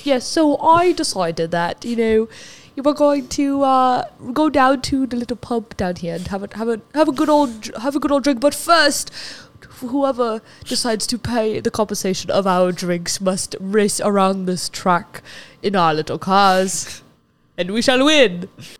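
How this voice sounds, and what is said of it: Mock British accent, not convincing. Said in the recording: “That's not like a British accent.”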